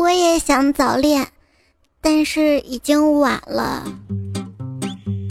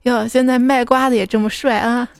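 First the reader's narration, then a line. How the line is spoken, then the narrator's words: Amused. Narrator (Chinese): 小妹他妈笑着跟小妹说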